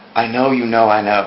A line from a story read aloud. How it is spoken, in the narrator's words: she murmured